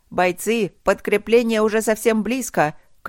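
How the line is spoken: Loud booming shout. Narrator (Russian): крикнула она зычно

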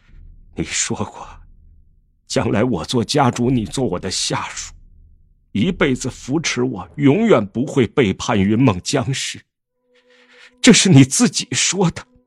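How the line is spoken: Choked, sobbing. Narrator (Chinese): 江城哽咽着道

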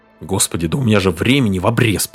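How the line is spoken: Muttering. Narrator (Russian): продолжал бормотать

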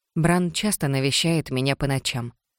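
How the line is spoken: Calm reply. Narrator (Russian): спокойно ответила

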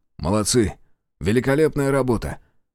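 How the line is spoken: Breathless snort. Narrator (Russian): Гаврила тяжело дыша хмыкнул

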